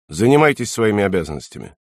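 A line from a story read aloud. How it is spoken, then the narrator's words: Dry, curt. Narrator (Russian): сухо сказал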